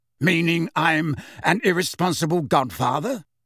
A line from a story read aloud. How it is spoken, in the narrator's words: demanded Sirius, his voice rising